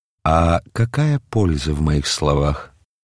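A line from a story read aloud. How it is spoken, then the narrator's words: Weary. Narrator (Russian): устало произнес Мельхиор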